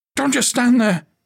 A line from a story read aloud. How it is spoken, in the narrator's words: he yelled as blood poured down his face